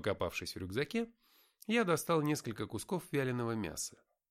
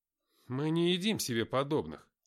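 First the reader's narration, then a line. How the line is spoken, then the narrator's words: Displeased mumble, mouth full. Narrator (Russian): недовольно пробурчал, откусив солидный кусок пластинки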